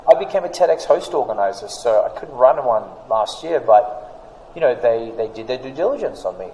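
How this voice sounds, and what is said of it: Australian accent. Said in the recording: “that Australian accent”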